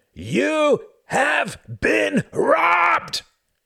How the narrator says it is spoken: He screamed at the top of his lungs

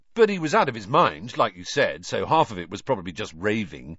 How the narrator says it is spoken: Ron said, in a falsely confident voice

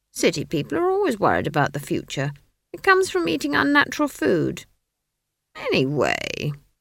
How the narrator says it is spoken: she added, suddenly realizing that she was whining

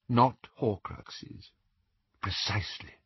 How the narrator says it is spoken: murmured Dumbledore

